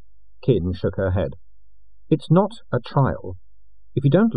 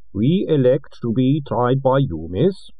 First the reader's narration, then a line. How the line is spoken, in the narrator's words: said the boy in a thick creed accent